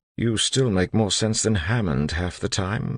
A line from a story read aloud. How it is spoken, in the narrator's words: he mumbled